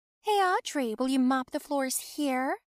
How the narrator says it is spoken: She asked loudly

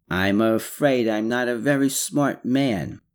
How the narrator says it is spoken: Ivo lowered his eyes and mumbled

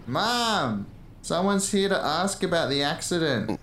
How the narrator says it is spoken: yell

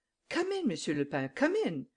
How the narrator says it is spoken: cried Madame Imbert

